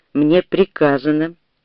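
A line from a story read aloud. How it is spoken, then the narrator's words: Icy cold. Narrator (Russian): повторила она ледяным тоном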